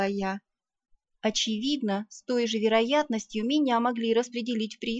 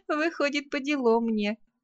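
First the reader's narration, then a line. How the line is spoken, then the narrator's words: Laughing. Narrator (Russian): рассмеялась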